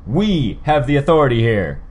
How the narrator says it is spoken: Armsmaster shouted

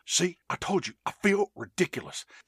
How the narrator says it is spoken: The Lone Ranger says in a low voice

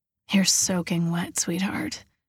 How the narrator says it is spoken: whisper

